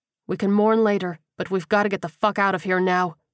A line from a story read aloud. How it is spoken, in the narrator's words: he said firmly